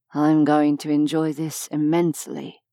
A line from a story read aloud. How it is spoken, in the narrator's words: murmured against her ear